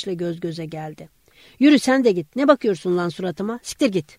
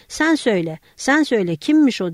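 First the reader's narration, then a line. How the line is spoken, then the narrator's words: Shouted. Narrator (Turkish): diye bağırdı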